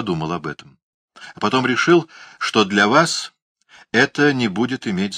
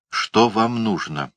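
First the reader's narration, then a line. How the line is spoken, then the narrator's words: Quiet question. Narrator (Russian): негромко спросил он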